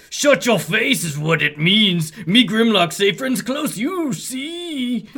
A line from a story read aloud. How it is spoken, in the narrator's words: Grimlock roars angrily